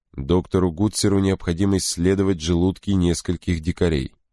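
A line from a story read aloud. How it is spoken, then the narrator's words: Plain. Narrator (Russian): сказал Крози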